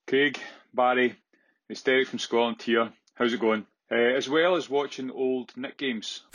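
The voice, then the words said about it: Thick Scottish accent. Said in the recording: “the accent is so thick that it sounds like he's saying it's Dave from Scotland ... Scottish accent”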